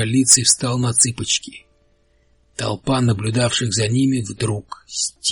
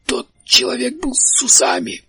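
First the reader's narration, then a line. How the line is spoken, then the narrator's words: Hoarse wheeze. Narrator (Russian): прохрипел широколицый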